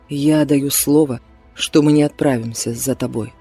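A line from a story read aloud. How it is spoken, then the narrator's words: Plain. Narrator (Russian): сказал Эрик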